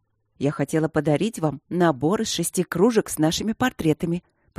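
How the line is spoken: Mysterious voice. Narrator (Russian): поделилась я таинственным голосом

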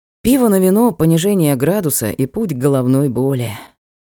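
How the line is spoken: Sighing squire. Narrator (Russian): вздохнул оруженосец

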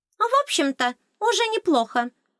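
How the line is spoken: Cheerful. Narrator (Russian): сообщила радостно

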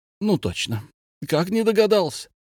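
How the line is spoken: Sick man's exclamation. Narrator (Russian): воскликнул больной

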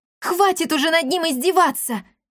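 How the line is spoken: Surprised bold exclamation. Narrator (Russian): воскликнула она, сама удивившись своей смелости

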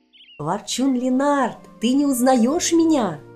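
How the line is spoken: Exclamation. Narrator (Russian): воскликнула Илва

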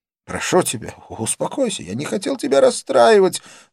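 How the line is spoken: Pleading. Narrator (Russian): взмолился он

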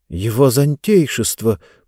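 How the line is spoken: Amazed mumbling. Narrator (Russian): пробормотал изумленный Хэмми

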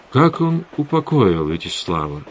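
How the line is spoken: Plain. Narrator (Russian): спросил Завулон

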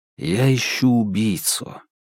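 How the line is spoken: Soft. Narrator (Russian): мягко произнес Феликс

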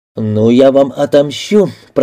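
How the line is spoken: Through clenched lips. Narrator (Russian): процедил сквозь губы Грант

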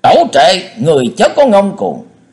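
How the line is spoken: Two men roaring loudly. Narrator (Vietnamese): Hai tên thét lừng lừng

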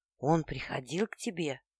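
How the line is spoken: Tense, anxious hoarse rasp. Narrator (Russian): напряженно, встревоженно и прохрипел

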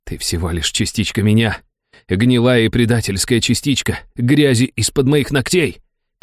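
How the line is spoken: Hissing. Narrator (Russian): прошипел я

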